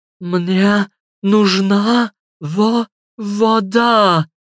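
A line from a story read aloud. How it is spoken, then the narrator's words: Groaning. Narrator (Russian): простонала Мариса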